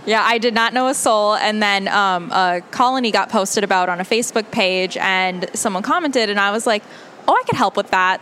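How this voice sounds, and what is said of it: Minnesota accent. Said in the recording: “I hear her accent now. I knew it. I heard it. She's like, Minnesota nice.”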